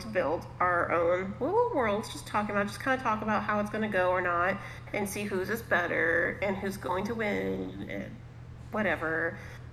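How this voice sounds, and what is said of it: Valley girl voice with heavy vocal fry. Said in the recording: “I just talked like a valley girl ... really hardcore vocal fry on that one ... that vocal fry was pretty heavy on that one”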